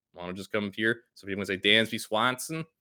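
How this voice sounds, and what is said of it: Bad put-on Boston accent. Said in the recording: “that was awful ... a really bad Boston accent.”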